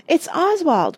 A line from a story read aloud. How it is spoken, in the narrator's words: cried Penelope